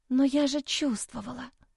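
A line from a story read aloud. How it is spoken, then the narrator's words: Desperate whisper. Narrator (Russian): прошептала я в отчаянии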